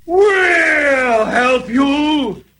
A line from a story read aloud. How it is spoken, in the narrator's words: roared Leo the lion